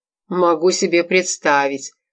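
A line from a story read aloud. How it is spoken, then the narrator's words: Mocking. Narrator (Russian): насмешливо сказал Лев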